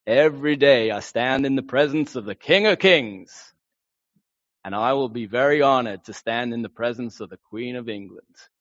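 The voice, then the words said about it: American accent impression of Billy Graham. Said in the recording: “you're going to get an accent if you're American”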